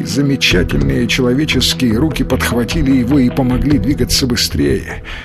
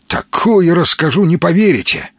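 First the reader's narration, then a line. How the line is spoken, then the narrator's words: Joyful exclamation. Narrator (Russian): радостно воскликнул Маломальский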